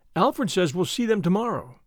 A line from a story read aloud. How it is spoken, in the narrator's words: said the girl